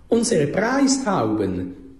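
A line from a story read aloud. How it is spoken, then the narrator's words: Calling out. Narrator (German): rief noch der Peter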